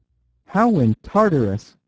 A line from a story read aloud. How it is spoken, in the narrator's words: cried Flambeau